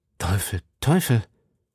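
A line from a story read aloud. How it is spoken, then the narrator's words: Murmuring. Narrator (German): murmelte D'Artagnan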